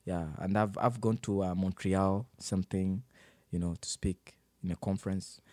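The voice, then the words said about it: Speaks with a noticeable foreign accent. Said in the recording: “I'm very insecure about my accent... when I'm speaking to Canadians, I feel like they don't understand”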